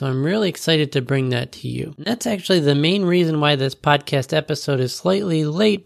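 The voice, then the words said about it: Sick, under-the-weather voice. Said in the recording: “you can probably tell from my voice, I'm a little bit under the weather”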